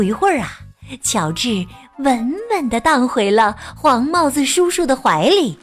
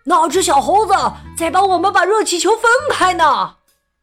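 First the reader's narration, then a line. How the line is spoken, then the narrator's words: Shouting from below. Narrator (Chinese): 有人在下面喊起来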